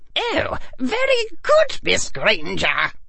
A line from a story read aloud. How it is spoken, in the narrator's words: squeaked Phileas Flitwick, the charms professor and head of Ravenclaw